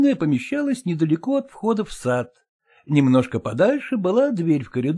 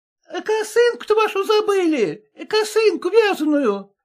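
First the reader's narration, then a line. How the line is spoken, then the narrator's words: Shouted after, maid. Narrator (Russian): крикнула вслед Насте горничная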